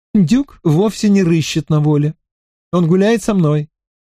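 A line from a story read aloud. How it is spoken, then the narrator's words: Laughing. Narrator (Russian): рассмеялась Аннабел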